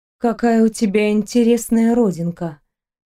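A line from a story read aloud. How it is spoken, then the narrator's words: Said in a strange voice. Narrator (Russian): чужим голосом сказала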